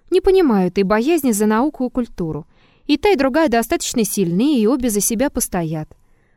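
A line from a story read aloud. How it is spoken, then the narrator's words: Calm objection. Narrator (Russian): Триродов спокойно возразил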